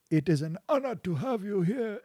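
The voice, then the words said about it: Vague nondescript put-on foreign accent. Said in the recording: “This is indescript accent to not get in trouble.”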